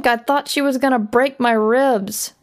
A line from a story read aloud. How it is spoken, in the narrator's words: Big Chuck answered the laughter